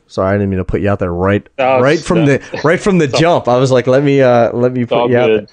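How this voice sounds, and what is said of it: Philadelphia accent. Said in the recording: “it's good to hear a Philly accent.”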